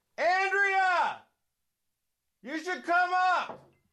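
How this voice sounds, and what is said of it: Shouting loudly to someone upstairs. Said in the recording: “I'm yelling at my wife.”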